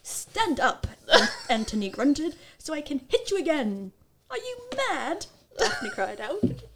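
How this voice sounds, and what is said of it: Put-on Cockney English accent. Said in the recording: “English accent... No, that's not like posh... is that poor. Like Cockney?... Yeah.”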